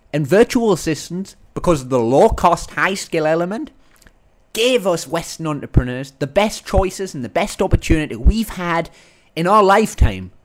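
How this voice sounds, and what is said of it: Northern English accent. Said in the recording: “my Northern English accent. British accent”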